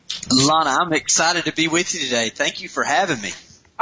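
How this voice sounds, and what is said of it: Southern US twang, Lower Alabama. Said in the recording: “I hear a little bit of a twang ... my accent kind of comes through that way ... a twangy L.A. ... I can't hide it”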